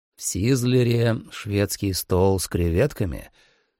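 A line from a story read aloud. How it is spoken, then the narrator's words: Calm reply. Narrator (Russian): спокойно ответил я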